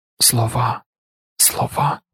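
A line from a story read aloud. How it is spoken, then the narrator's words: Muttered. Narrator (Ukrainian): бурмотіла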